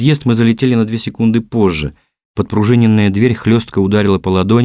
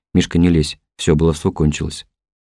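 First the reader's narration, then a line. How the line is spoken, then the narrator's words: Quiet warning. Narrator (Russian): Колян тихо предупредил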